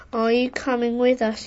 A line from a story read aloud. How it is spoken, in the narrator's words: asked